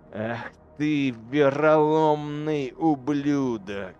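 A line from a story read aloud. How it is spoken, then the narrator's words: Through gritted teeth. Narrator (Russian): процедил Герог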